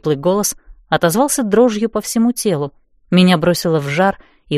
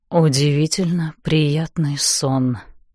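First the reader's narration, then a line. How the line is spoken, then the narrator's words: Murmured. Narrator (Russian): пробормотал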